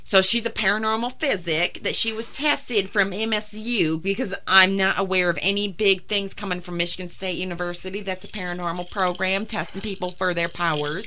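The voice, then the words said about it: Put-on Southern accent. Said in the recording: “Why does she have a southern accent? ... it becomes southern”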